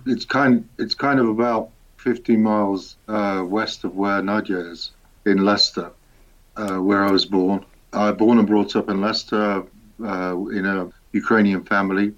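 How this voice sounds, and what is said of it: English Midlands accent. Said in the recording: “That accent, it's not Ukrainian. It's somewhere left of the Midlands, somewhere.”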